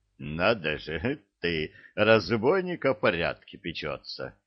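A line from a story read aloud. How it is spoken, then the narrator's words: Laughing. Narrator (Russian): засмеялся капитан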